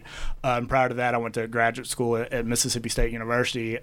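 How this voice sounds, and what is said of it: Southern US accent. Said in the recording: “if you can hear the uh, southern accent through the radio ... born and bred in Mississippi”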